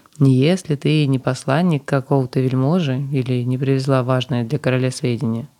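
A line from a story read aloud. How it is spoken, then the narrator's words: Calm. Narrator (Russian): спокойно ответил офицер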